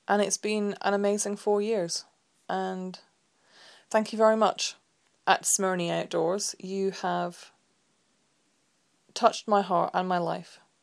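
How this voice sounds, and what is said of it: Teary, emotional voice. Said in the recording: “I'm getting all teary again”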